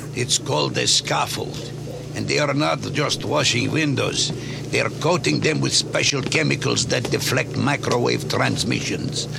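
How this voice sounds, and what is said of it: Put-on Russian, Eastern European accent. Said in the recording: “Man, I hope that's a Russian accent... I think it's supposed to be... Eastern European voice.”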